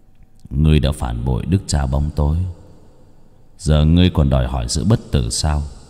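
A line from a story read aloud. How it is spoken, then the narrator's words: Muttering. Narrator (Vietnamese): Nó ... mà lẩm bẩm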